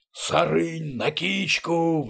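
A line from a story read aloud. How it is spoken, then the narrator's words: Two-throated roar. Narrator (Russian): взревел в две глотки двуглавый Юл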